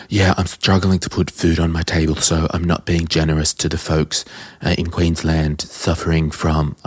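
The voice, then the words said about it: Imitates another person's voice. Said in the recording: “I don't know why I'm doing this Trumpy voice,”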